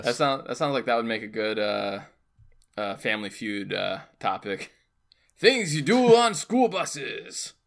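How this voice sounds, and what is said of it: Odd accent imitating a game show host. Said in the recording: “That's an interesting accent that you gave the host of Family Feud”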